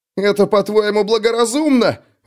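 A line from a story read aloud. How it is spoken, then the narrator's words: Wounded man shrieking. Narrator (Russian): взвизгнул подстреленный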